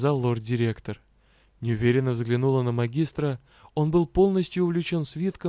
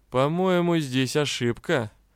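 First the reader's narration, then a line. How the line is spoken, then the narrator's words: Mocking. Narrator (Russian): как-то насмешливо произнес Риан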